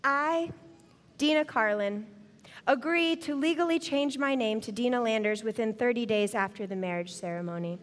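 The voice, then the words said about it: Sweet, sugary voice. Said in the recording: “in my sweetest voice”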